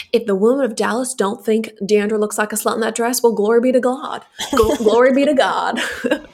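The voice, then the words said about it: Put-on Southern Bible Belt accent. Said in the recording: “your Bible Belt impression”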